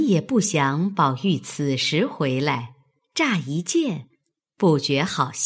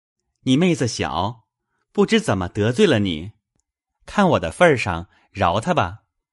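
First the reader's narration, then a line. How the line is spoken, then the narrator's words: Hasty, smiling. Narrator (Chinese): 宝玉连忙带笑道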